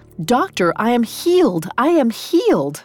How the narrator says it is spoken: She claimed the pain was gone and cried

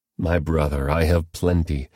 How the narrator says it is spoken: Esau answered

